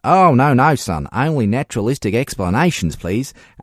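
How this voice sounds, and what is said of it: Put-on Australian accent. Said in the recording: “I did go into an Australian accent.”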